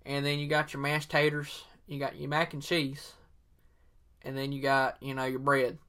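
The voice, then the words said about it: Exaggerated put-on Southern accent. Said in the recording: “I'm using my real Southern accent, my 100% authentic Southern accent”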